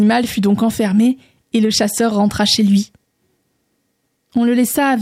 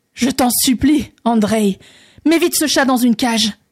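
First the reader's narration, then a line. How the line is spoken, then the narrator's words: Terrified exclamation. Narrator (French): s'écria le tsar, rempli d'épouvante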